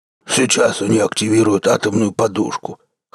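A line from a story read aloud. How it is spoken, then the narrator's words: Giant's deep voice, snorting. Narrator (Russian): хмыкнув, пробасил синий гигант, уроженец Альфа Центавра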